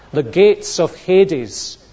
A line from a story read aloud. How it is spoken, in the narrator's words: says Jesus